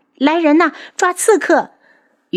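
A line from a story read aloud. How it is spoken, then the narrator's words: Sudden shout. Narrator (Chinese): 宇文天清忽然大叫起来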